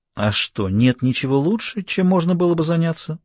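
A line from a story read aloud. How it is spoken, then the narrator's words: Gentle, affectionate question. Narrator (Russian): спросила пантера ласковым голосом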